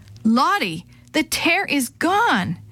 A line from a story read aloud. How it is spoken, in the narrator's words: Gladys gasped